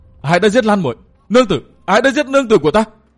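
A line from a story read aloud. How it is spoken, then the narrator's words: Anguished howl. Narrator (Vietnamese): Gã gào lên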